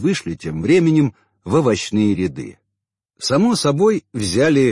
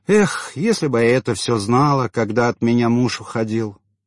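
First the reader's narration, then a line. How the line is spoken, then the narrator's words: Sighing complaint. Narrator (Russian): вздохнула Татьяна и пожаловалась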